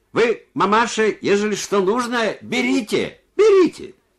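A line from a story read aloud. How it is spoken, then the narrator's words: Deaf man shouting in passing. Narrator (Russian): глухой, пробегая через двор, крикнул ей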